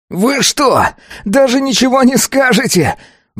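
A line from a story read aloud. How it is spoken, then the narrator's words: Furious child roaring. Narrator (Russian): Взревел взбешенный ребенок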